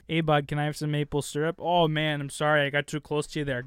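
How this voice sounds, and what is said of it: Put-on Canadian accent. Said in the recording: “You sound like a Canadian. ... That was pretty good. ... It was pretty all right.”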